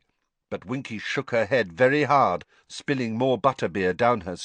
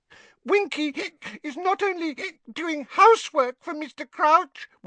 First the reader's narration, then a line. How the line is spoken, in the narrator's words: Winky squeaked indignantly, swaying worse than ever